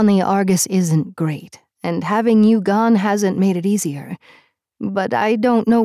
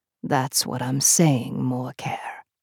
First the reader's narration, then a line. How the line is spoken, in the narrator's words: he said, his voice a low rumble